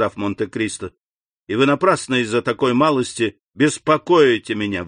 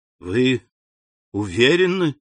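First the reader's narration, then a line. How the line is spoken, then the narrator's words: Bewildered repetition. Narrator (Russian): повторил Бошан, растерянно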